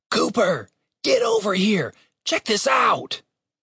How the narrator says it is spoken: he called out in a loud whisper

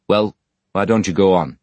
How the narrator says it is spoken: he then asked, turning rather irritably on Stephen Blackpool

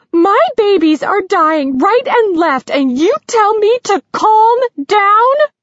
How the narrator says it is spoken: Her voice was so shrill it sliced through him like a well-honed knife

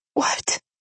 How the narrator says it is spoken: I asked in a small voice that seemed to be coming from very far away

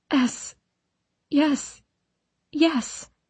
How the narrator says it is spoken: whimper

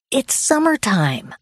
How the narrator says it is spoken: I exclaimed

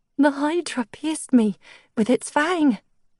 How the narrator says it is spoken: she continued, her voice shaky

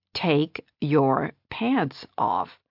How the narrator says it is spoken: she said slowly, like he just hadn't understood her

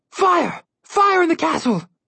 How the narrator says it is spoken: a guard yelled

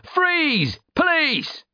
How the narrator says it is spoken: yelling

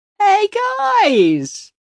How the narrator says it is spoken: Jimmy hollers

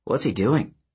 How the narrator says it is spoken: Percy murmured

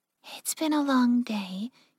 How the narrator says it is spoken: Yukiko said softly

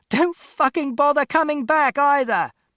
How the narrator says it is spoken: she ran into the street and shouted

